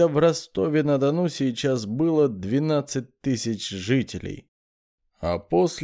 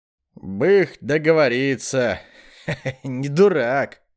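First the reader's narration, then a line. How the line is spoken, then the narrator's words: Laughing. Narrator (Russian): засмеялся Щерба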